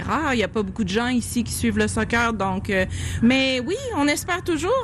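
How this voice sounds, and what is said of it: Charming regional French accent. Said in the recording (French): “le délicieux accent de”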